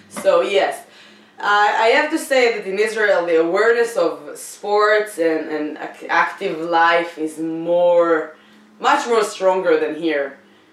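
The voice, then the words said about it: Israeli-accented English. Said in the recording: “I'm an Israeli comedian with accent... that's not a Bostonian accent”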